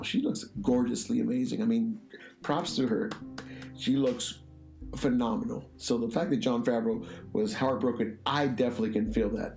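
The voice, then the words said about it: Slightly rough, dry-throated voice. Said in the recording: “my voice sounds a little bit off, not that I have a cold, but definitely my dry throat from the weather”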